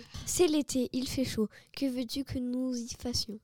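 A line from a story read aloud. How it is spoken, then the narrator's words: Murmured. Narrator (French): murmure la belle Aphrodite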